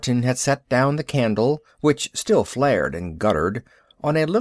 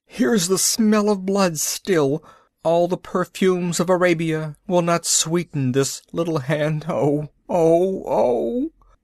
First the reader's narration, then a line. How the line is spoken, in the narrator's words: he wrung out those soft, tortured sighs